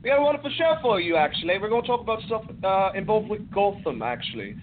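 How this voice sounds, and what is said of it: Put-on British accent. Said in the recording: “are you going to do that voice for the whole show? ... I don't have to do the damn voice. ... I'm not really British, guys”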